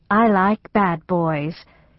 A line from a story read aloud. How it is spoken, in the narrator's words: said with a purr